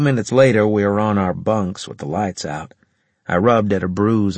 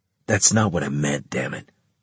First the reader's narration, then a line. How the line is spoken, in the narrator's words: he muttered